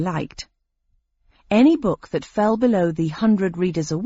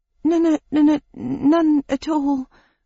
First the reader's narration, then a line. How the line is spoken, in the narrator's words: groaned